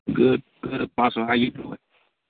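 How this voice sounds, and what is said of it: Partly lost, strained voice. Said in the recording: “What's wrong with your voice? ... I'm just losing my voice a little bit.”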